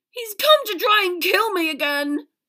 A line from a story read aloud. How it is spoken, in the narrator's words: Wormtail shrieked